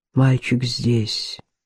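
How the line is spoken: Quiet reply. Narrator (Russian): тихо отозвался на немой вопрос Занл

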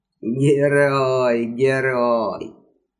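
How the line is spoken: Laughter from the right. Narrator (Russian): Захохотало справа

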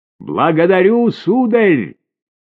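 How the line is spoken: Shouted. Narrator (Russian): крикнула Марианна

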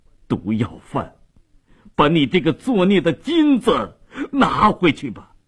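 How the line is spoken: Crying out, grieving. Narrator (Chinese): 米勒哭喊着说道

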